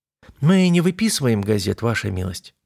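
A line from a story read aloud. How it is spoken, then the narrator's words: Soft female reply. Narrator (Russian): мягко ответила женщина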